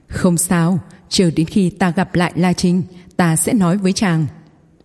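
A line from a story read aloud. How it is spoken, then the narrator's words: Smiling. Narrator (Vietnamese): Khê Ấu Cầm mỉm cười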